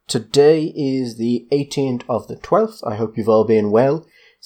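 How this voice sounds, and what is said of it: Rising pitch at end of lines. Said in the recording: “raising my voice at the end of every line like a teenage girl ... Is it the East Australian inflection?”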